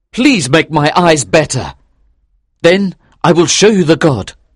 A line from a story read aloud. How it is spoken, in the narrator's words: he cried